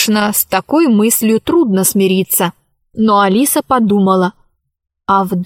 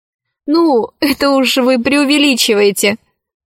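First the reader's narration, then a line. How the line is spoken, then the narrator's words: Laughing. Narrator (Russian): засмеялась Алиса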